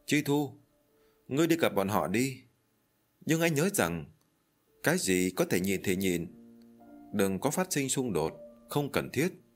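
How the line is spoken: Sighing. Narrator (Vietnamese): Hạ Vĩ Linh thở dài rồi tiếp tục nói

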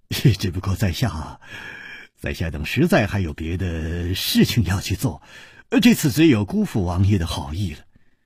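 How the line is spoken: Sighing, wry. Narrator (Chinese): 楚留香只有叹了一口气，苦笑着说

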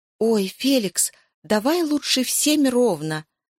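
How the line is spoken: Pleading. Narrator (Russian): взмолилась Зоя

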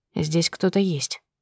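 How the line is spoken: Quiet. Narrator (Russian): негромко сказал Иван

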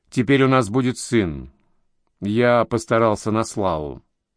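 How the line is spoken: Tired man. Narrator (Russian): Мужчина, ее отец, устало откинувшись на подушке, произнес

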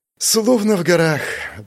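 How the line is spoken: Blissful exhale. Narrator (Russian): блаженно выдохнула Лана

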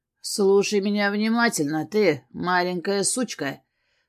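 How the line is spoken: Menacing hiss through teeth. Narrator (Russian): процедил он, наклонившись к моему лицу

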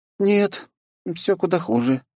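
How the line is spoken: Sad sigh. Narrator (Russian): с грустью вздохнула Жанна

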